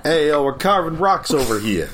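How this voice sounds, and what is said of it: Put-on New York accent. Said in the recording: “construction workers from New York ... your standard construction worker accent ... some dump on Staten Island ... You gotta have the accent.”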